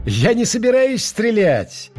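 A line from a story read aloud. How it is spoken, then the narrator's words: Cheerful. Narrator (Russian): весело сказал мистер Стерлинг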